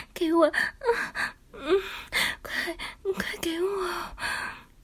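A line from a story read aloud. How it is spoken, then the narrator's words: Urgent panting. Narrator (Chinese): 亲家母急喘着气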